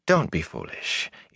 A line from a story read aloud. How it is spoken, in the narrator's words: Ila said soothingly